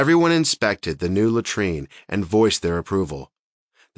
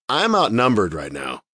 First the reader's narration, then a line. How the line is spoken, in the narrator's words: Still laughing, replied